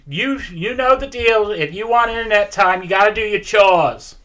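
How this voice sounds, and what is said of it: Inconsistent angry Jewish mom accent. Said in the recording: “She's an angry Jewish mom. ... Her accent keeps changing.”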